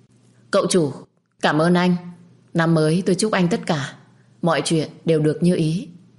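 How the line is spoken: Loud. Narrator (Vietnamese): Tôi lớn tiếng

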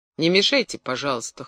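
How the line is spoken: Cold. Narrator (Russian): холодно сказал он

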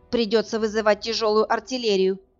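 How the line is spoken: Near growl. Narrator (Russian): почти прорычала она

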